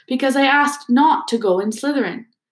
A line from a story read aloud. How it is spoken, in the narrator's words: said Harry in a defeated voice